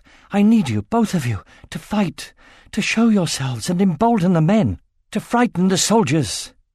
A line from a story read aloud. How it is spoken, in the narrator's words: gasped